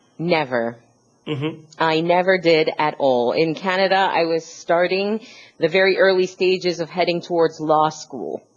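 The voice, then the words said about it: Relaxed Canadian accent. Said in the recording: “that nice, relaxed accent, which was actually Canadian, not American, but still it's very similar”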